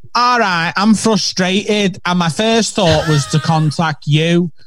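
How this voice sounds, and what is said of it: Manchester accent put on. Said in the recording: “I'm going to read it in a Manc accent”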